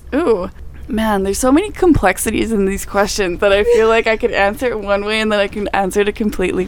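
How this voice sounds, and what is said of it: Subtle Canadian accent. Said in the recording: “one of our resident Canadians ... In case you didn't hear it anywhere in the accent yet ... It's subtle. It's a subtle one.”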